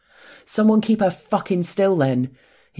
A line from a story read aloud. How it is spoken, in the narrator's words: he roars